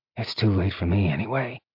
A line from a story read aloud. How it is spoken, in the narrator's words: Zeal muttered